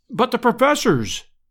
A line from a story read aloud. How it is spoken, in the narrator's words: I cried, in consternation